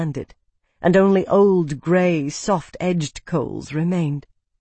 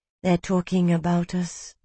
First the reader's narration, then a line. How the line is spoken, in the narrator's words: Odiana murmured